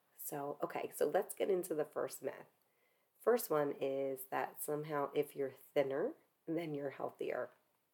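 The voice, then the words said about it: Sick-sounding voice with coughing. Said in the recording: “I can't talk a lot without coughing a lot ... my voice is a little bit different and I'm probably going to cough a little bit more than I normally do”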